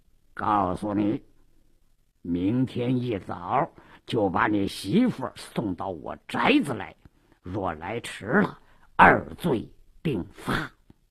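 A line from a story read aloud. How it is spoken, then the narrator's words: Low, menacing. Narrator (Chinese): 鲁斋郎压低了声音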